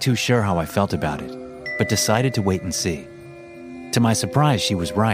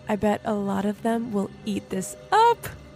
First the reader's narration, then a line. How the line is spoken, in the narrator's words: she squealed excitedly